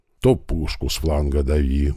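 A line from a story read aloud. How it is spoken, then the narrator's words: Grumbled. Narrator (Russian): бурчал механик-водитель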